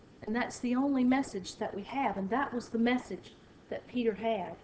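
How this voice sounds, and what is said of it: Southern American accent. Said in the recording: “mine may have a southern accent”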